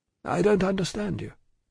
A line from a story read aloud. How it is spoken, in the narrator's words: said Mr